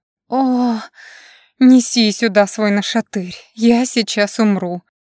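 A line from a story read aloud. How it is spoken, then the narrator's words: Trembling moan. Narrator (Russian): дрожащим голосом простонала я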